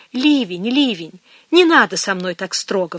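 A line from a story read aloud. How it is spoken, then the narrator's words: Pleading. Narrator (Russian): взмолилась она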